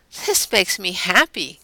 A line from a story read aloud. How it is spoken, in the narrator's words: kind of laugh